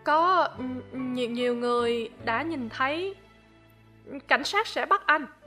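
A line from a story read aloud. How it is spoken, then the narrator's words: Stammering. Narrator (Vietnamese): lắp bắp nói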